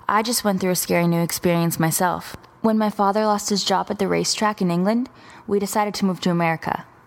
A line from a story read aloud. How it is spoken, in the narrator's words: the girl continued in a soothing voice